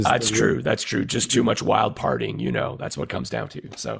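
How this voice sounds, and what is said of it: Gravelly, sick-sounding voice. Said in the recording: “I am your sick Hollywood undercover missionary ... this gravelly radio voice”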